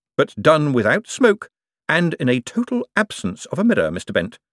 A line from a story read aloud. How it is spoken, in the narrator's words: said Moist cheerfully